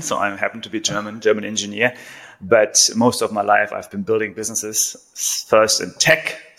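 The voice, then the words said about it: German accent. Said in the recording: “I have a German accent”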